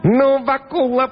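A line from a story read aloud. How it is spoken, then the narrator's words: Squeaky devil's voice. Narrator (Russian): пропищал черт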